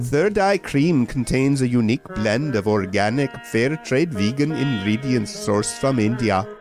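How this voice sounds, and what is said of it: Put-on Indian accent. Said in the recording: “even though I'm a white American guy from Sherman Oaks, California, I have an Indian accent”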